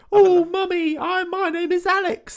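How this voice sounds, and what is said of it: Mock child's bad British accent. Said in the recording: “Putting on a really bad British accent the entire time.”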